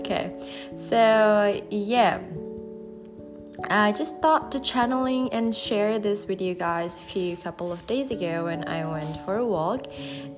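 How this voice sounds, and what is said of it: Sick, flu-affected voice. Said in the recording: “I'm a bit flu right now, that's why my voice is a bit different”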